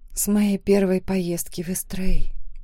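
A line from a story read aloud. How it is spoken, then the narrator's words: Soft whisper. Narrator (Russian): тихо прошептала я в ответ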